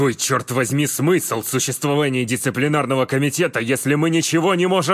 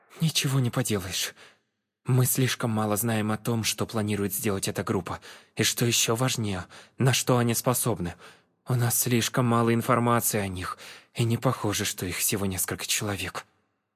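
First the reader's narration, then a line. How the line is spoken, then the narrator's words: Sighing. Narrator (Russian): вздохнула Клэр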